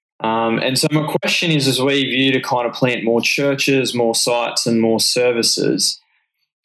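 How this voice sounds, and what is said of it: A noticeable regional accent. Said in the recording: “Don't you love that accent? ... That's such a good accent.”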